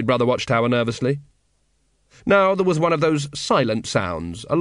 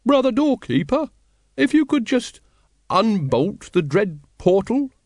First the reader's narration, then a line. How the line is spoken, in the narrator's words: quavered